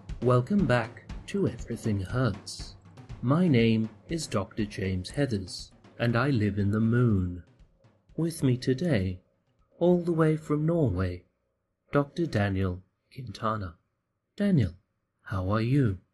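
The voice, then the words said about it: Soothing public-radio host voice. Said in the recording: “How's my NPR voice? ... It's getting better. ... I find it so soothing when I listen to it on the radio.”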